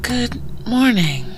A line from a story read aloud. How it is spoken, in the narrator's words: Eleanor said in a sleepy voice